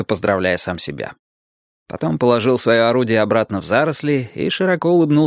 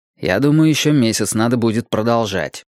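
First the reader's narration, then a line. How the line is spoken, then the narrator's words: Plain. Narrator (Russian): ответил Уинстон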